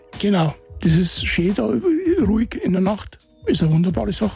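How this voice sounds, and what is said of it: Bavarian German dialect. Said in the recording (German): “wieder einen Besucher aus Bayern, habe ich gedacht ... Das klingt aber nicht so ... Hast aber deinen Dialekt mitgenommen?”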